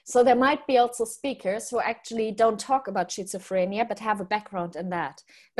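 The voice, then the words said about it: German accent. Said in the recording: “I like your German pronunciation ... I'm just taking the mic out of your German accent”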